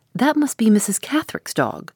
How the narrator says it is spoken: cried the housekeeper

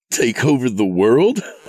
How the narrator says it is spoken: He laughed at the absurdity of it

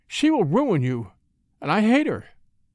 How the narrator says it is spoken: she exclaimed

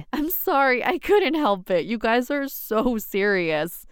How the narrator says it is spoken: my mom laughed

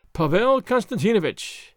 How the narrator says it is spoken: he said, in an imploring voice

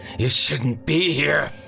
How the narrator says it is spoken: he finally snarled

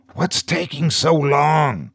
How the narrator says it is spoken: whispered Jesse

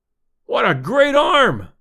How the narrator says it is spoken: I exclaimed, deep in my throat

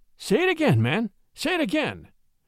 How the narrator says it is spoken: Charlie exclaimed in an excited voice

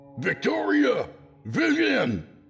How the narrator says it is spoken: shouted

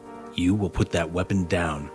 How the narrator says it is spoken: Blackthorn whispered

